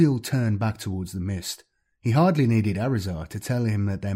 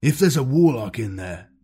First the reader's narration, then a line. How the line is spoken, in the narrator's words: the chaplain growled